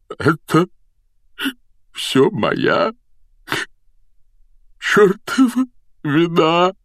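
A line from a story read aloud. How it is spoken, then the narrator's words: Choked, tearful. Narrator (Russian): выдавил он сквозь слезы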